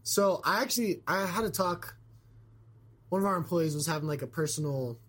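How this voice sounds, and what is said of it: Slightly scratchy, hoarse voice. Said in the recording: “lost my voice ... I'm like a little scratchy ... you sounded rough”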